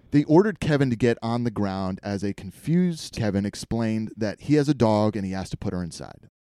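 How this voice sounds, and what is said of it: Usual voice. Nothing is said of it.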